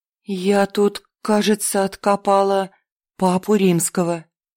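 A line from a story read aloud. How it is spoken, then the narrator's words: Uncertain reply. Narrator (Russian): неуверенно ответила Настя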